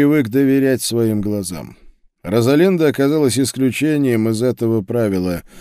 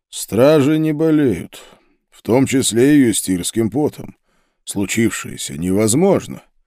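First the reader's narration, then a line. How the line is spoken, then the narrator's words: Muffled, hollow voice. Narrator (Russian): Пауль глухо произнес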